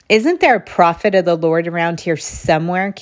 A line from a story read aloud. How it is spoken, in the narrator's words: King Jehoshaphat asked